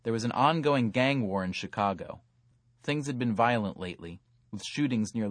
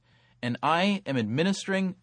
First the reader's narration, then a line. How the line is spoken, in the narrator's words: Venkatesh sputtered, sticking to his survey script